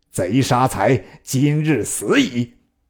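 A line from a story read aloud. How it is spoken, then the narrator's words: Through gritted teeth. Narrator (Chinese): 毗咬牙切齿，曰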